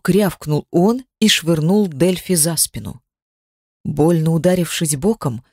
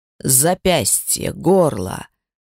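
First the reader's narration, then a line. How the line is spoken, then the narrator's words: Growling. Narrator (Russian): рычал он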